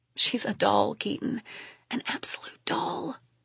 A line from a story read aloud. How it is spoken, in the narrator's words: I whisper